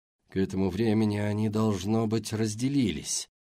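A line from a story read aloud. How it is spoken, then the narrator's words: Muttered. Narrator (Russian): бормотал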